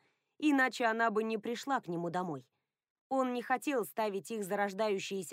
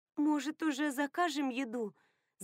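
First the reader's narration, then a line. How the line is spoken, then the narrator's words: Trembling voice. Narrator (Russian): заметила она дрожащим голосом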